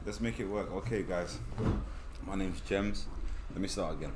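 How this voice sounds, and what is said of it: British accent. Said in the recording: “So you guys have to hear this accent.”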